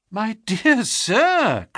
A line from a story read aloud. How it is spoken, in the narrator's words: cried Holmes